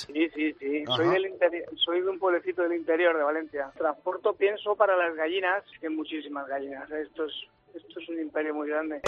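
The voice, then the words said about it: Valencian Spanish accent. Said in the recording (Spanish): “¿Tienes acento valenciano?”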